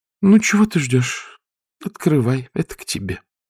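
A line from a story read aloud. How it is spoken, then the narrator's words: Sigh. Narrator (Russian): Вздохнула она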